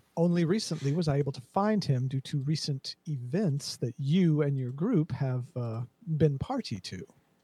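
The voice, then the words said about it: Weak attempt at mild British accent. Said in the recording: “I'm trying to do a mild British accent. I'm not pulling it off.”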